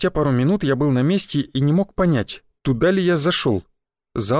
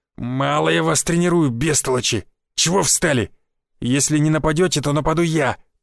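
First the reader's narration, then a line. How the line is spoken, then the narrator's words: Growled. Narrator (Russian): прорычал Гвоздев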